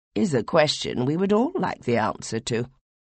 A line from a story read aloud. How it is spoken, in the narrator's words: said Hebal dryly